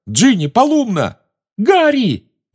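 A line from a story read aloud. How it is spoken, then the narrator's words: Shrill squeal. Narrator (Russian): взвизгнула Гермиона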